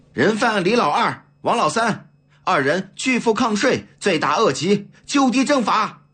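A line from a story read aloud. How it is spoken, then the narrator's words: Loud announcement. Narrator (Chinese): 李子清大声宣布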